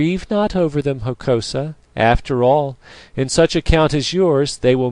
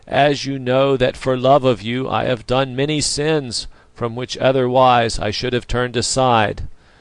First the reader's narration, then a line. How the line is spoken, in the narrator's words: he answered in a voice that sounded like a groan